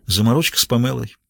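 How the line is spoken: Answered with a deep sigh. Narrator (Russian): глубоко вздохнула и ответила

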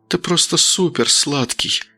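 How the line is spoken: Whispered. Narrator (Russian): прошептав

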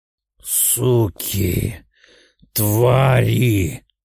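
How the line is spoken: Hissed. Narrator (Russian): прошипела Дитрих

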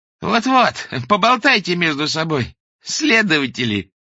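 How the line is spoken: Laughing woman. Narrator (Russian): рассмеялась им вслед докторша

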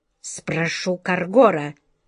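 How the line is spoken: Grumbling. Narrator (Russian): проворчал король

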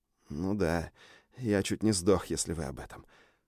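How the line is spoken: Whisper. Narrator (Russian): прошептал я

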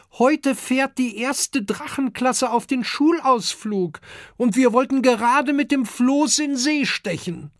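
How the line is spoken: Calling upward. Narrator (German): ruft Kokosnuss zum großen Amadeus hinauf

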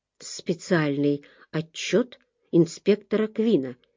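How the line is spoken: Barely audible. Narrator (Russian): едва слышно сказал

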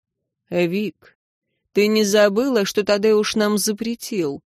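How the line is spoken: Calm question. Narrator (Russian): спросил он спокойно

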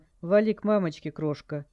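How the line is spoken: Roaring crowd shout. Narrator (Russian): Толпа ревела, ей что-то кричали

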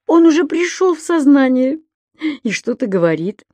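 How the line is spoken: Relieved sigh. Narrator (Russian): облегченно вздохнул господин Пепперминт

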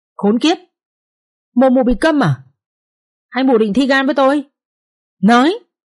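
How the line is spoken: Furious shriek. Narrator (Vietnamese): tức quá mẹ cả rít lên

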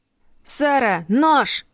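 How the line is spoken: Shouted. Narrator (Russian): прокричал он

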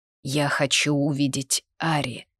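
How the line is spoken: Muffled dull voice. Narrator (Russian): глухо вымолвил Ридиан

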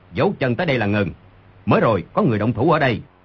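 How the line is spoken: Sudden shout. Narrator (Vietnamese): Người đi đầu đột nhiên quát

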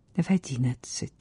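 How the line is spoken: Quiet. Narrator (Russian): тихо проговорила она

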